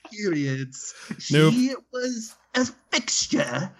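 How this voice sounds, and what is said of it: Put-on British accent. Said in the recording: “Why are you using a British accent? ... that's terrible”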